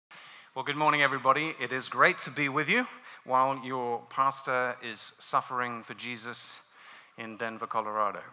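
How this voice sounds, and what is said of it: British London accent. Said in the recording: “As you can tell by my accent, ... I'm not from these parts of the world. I grew up in London”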